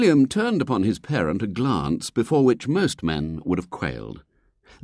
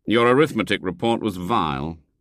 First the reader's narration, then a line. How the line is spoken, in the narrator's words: he said